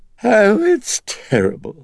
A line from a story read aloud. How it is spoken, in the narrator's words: it whined